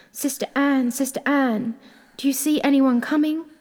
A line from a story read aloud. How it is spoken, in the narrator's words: the poor afflicted wife cried out from time to time